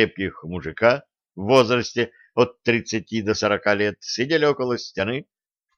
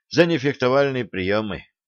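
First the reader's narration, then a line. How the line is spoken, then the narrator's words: Dejected sigh. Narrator (Russian): удрученно вздохнул юноша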